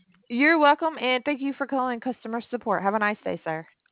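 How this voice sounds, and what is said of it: Southern US accent. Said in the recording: “You got a southern accent. ... I'm from Alabama.”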